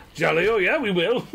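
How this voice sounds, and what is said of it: Put-on English accent. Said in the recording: “really has leaned into the English. ... the English accent”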